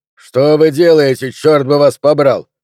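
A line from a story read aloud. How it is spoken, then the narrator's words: Barked. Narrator (Russian): рявкнул Хантер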